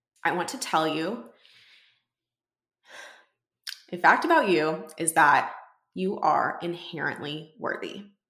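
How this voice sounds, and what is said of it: Teary, emotional voice. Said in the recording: “I'll tear up if I talk about it for too long ... I'm like actually getting teary eyed saying this.”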